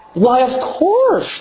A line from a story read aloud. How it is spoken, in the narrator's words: she shouted